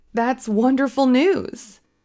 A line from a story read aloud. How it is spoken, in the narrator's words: I exclaimed